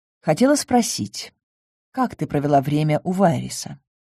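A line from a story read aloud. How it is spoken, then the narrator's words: Quiet remark with sigh. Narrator (Russian): Светана вздохнула, тихо заметила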